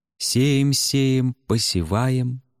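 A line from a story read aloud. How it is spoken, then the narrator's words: Thin children's singing echo. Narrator (Russian): пропело в голове тонким голоском эхо утренних ребячьих колядок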